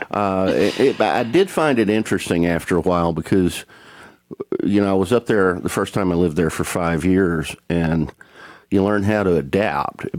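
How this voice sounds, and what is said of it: Speaker with a strong twang. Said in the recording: “a twang like mine ... keeping my accent because I just couldn't get rid of it”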